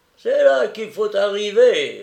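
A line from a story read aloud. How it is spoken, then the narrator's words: Man sneering. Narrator (French): ricana l'homme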